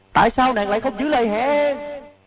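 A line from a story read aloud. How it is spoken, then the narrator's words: Anguished despairing scream. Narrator (Vietnamese): Tiếng thét đầy bi thương, tuyệt vọng, khổ đau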